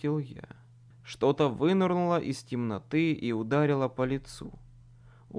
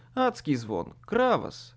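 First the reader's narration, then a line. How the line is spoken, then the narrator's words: Grumbling. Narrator (Russian): поворчал я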